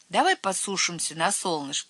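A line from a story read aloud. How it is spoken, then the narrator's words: Plain. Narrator (Russian): сказал Цвотель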